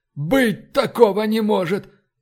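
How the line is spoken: Breathed out. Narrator (Russian): выдохнул Фокс

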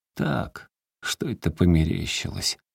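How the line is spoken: Muttered. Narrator (Russian): пробормотал он

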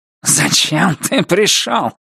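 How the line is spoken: Hissed. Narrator (Russian): прошипел мистер Крупп, злобно

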